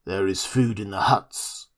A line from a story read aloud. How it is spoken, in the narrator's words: said an ox-boar man drowsily